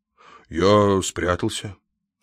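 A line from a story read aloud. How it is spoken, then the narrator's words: Calm old man. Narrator (Russian): спокойно ответил старик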